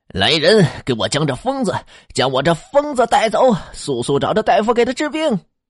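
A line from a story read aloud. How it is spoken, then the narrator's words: Panicked loud shout. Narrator (Chinese): 县太爷慌了神，大声的喊道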